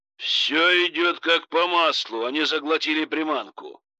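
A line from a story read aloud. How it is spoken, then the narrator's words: Pleased growl. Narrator (Russian): довольно прорычал Витольд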